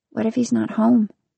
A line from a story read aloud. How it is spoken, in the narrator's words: Mia whispers